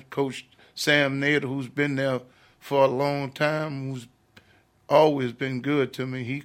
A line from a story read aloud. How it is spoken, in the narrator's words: he cried